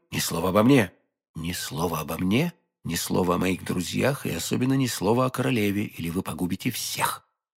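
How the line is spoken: Whisper. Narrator (Russian): прошептал Д'Артаньян

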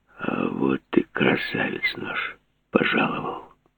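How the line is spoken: Hoarse. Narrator (Russian): он сипло сказал

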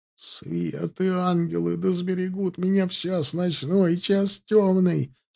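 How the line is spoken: Strained stiff-lipped croak. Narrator (Russian): с трудом прохрипели окаменевшие губы

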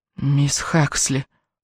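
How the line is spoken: Dreamy mumble. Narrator (Russian): пробормотал он, будто во сне

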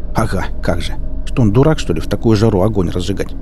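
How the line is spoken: Snorting again. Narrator (Russian): Я вновь хмыкнул

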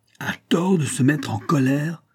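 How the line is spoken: King's frantic yell. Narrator (French): hurla le roi avec frénésie

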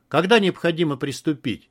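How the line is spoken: Abrupt change of tone. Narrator (Russian): резко переменил тон дизайнер

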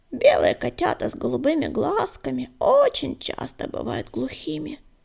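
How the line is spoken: Creaky voice close to ear. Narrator (Russian): проскрипела рябинка, склоняясь к самому уху Огнегрива

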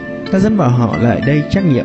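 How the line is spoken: Smiling. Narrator (Vietnamese): Tiêu Ngọc mỉm cười nói

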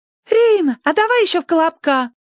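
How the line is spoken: Squeaked. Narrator (Russian): пискнул кто-то

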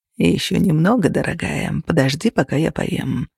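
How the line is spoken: Purring into ear. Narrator (Russian): промурлыкал Костя ей на ухо

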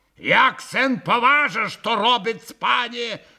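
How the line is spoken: Barked. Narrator (Russian): рявкнул на Колганова и пан Врублевский

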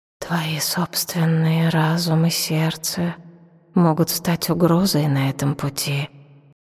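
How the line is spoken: Whispering. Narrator (Russian): прошептал он

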